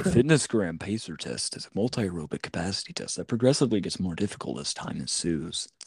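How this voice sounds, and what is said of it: Announcer-style radio voice. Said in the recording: “It's like a radio voice.”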